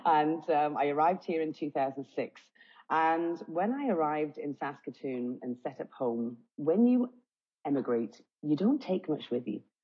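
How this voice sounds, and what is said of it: British accent. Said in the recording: “I come from the UK, obviously, otherwise I'm a fake accent consultant”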